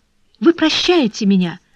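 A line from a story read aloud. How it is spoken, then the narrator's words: Joyful exclamation. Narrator (Russian): воскликнул Бопрео, внезапно переходя от отчаяния к радости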